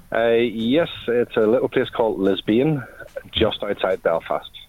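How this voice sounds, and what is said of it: Northern Irish accent. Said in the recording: “I'm detecting an accent ... I'm in Northern Ireland.”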